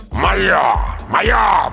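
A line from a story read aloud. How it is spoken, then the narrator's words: Growled. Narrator (Russian): прорычал он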